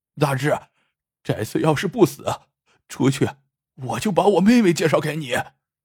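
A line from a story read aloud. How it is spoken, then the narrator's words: Choked, sobbing voice. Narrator (Chinese): 二老万哽咽着说道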